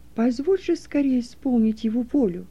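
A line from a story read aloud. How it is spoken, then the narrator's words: Quiet, leaning close. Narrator (Russian): Стефан наклонился к нему и тихо произнес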